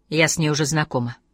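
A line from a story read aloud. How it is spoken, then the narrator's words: Dry reply. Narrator (Russian): сухо ответила Лизбет Саландер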